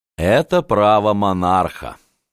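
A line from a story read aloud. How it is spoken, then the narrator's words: Dry objection. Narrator (Russian): сухо возразил Остерман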